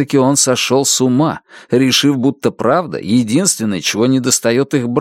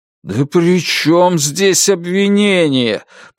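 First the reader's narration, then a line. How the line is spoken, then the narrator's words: Moaning husband. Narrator (Russian): простонал муж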